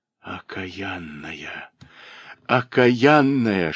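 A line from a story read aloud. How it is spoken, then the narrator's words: Whisper. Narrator (Russian): шептала она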